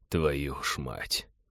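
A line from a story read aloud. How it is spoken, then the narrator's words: Shaken mutter. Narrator (Russian): Пилот пробормотал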